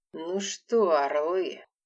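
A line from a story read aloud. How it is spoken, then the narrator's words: Hissed. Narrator (Russian): прошипел шеф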